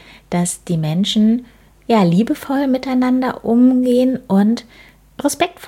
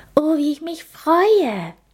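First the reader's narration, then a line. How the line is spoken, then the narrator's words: Very excited. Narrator (German): meinte Linny ganz aufgeregt, da sie schon so viel von den Menschen gehört, aber noch nie einen gesehen hatte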